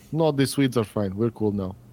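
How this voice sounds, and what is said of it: Unconvincing put-on Polish accent. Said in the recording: “I don't think you know what a Polish accent is”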